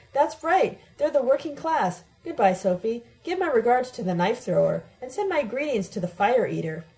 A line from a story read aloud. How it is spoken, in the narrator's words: He shouts back